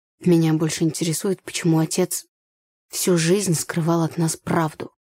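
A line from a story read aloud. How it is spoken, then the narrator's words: Plain. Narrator (Russian): сказал брат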